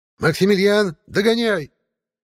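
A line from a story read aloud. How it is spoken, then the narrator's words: Shout. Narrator (Russian): крикнула Баба-Яга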